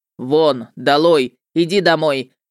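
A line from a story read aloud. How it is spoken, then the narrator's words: Barked. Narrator (Russian): рявкнул Любомир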